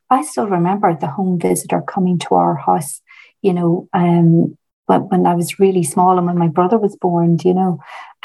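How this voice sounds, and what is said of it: Northern regional accent. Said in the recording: “I'm from the north, as you can probably tell by the accent.”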